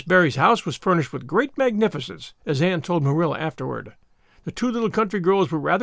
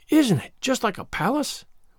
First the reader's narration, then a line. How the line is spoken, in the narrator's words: whispered Diana